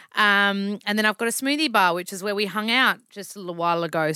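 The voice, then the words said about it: Broad Australian accent. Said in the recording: “I'm a self-proclaimed Aussie bogan, hence my accent ... my bogan accent”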